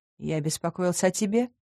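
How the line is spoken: Werewolf's dull murmur. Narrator (Russian): глухо обронил оборотень

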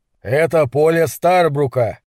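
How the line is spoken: Threatening tone. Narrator (Russian): сообщил Гэлен угрожающим тоном

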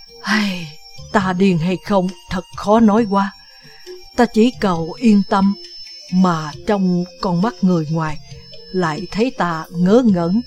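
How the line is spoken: Sad, sighing reply. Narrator (Vietnamese): Đinh Điển mặt buồn rười rượi, lặng lặng hồi lâu rồi thở dài đáp

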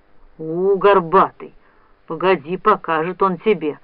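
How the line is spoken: Grumbling. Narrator (Russian): ворчал Пижму

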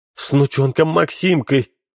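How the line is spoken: Sobbing. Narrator (Russian): всхлипнула Ксения

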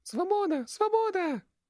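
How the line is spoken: Shrill squeal. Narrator (Russian): верещало создание писклявым голосом

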